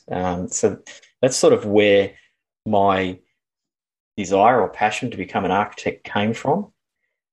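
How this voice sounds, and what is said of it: Australian accent. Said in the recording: “as listeners can likely tell from your accent, you're from Australia”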